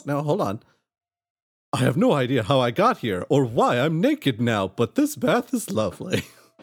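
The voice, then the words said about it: Character voice impression. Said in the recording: “my Solinar impression”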